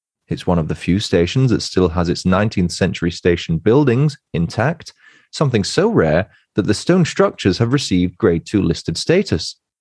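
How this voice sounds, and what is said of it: Put-on accent, commercial announcer style. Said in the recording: “I don't know why I went into an accent there. I felt like I was doing a commercial.”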